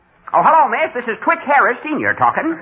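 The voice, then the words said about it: Old country bumpkin voice. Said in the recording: “I'll talk like an old rube.”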